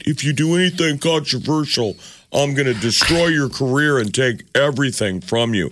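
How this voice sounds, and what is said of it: Imitates another person's voice. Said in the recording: “I'm going to do an impression, see if you recognize it... Who am I doing? You.”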